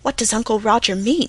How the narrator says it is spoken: whispered Felicity

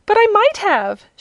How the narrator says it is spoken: exclaimed, and began to cry again

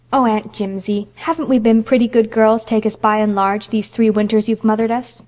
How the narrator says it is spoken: pleaded Phil

